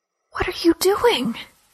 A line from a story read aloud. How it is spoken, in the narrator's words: she asked in an agonized whisper